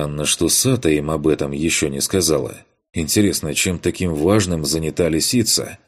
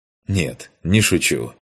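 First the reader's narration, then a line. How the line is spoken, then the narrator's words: Smirking snort. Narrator (Russian): хмыкнул я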